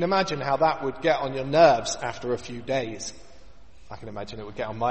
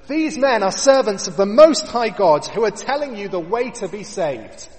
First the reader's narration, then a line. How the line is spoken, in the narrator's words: she follows them around, shouting after them